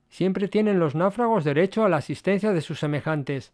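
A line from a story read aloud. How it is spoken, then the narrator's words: Plain. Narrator (Spanish): respondió Gordon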